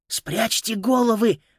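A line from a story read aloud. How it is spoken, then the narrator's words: Hiss. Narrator (Russian): прошипел Юстус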